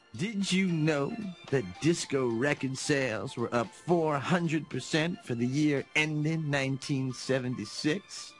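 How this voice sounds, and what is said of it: Disco Stew character impression. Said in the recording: “going to do an impression of every single character ... It's Disco Stew.”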